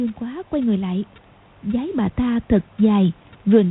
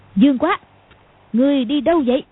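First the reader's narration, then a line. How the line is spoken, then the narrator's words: Sudden loud shout. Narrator (Vietnamese): Cầu Thiên Xích đột nhiên quát to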